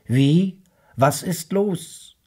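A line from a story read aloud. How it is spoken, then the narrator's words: Calling back. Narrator (German): rief zurück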